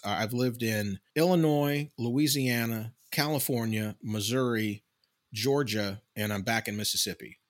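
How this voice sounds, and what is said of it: Slight Southern US accent. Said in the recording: “I have a slight southern accent ... it's a little more pronounced um, when I'm talking to my mother ... Sometimes it's a little thicker”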